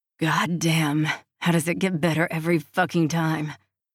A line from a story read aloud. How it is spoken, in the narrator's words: He moans